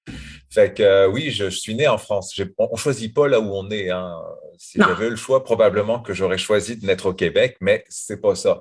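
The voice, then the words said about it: Accent between French and Québécois. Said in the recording (French): “vous allez sentir parfois dans mon accent que j'ai des petites vibrations qui sont comme en plein milieu de l'Atlantique, ni vraiment française, ni vraiment québécoise, un peu entre les deux”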